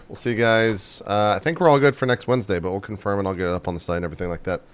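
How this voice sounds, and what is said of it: Hoarse, fading voice. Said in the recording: “I'm losing my voice”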